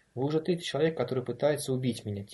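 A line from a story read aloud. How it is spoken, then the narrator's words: Quiet. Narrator (Russian): тихо проговорила Энн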